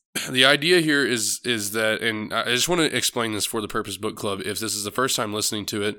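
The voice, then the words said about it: Sick, congested, sore-throated voice. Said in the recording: “I am a little bit sick. Got some post-nasal drip. My throat kind of hurts, so my voice may be pretty bad.”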